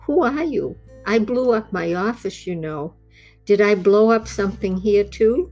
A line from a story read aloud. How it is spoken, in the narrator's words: Gwendolyn laughed gently